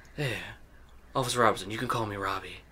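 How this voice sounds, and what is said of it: Put-on character voice. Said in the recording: “doing his voice. He sounds just like Chuck. He sounds like that kid from...”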